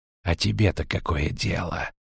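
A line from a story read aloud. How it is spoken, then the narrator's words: Hissing. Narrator (Russian): прошипел черный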